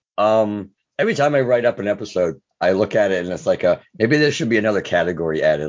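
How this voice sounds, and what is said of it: Sick, strained voice. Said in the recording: “apologize for my voice. Yes, I'm sick”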